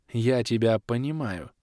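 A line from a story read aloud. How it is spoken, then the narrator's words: Gentle. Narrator (Russian): мягко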